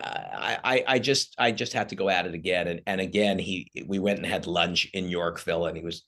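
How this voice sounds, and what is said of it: Usual voice. Nothing is said of it.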